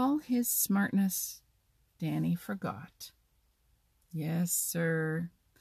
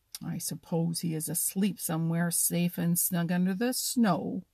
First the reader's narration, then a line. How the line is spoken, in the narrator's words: grumbled Hooty